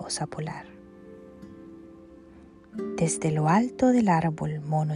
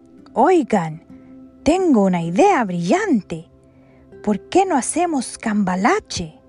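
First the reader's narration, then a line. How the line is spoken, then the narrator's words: Smug exclamation. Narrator (Spanish): creyéndose el más listo de todos, exclamó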